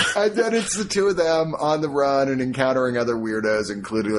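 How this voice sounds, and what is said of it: Usual voice. Nothing is said of it.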